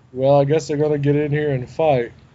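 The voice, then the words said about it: Flat, stoic imitation of another person. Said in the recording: “Jim Brown's just like so stoic ... that's not even a sarcastic impersonation.”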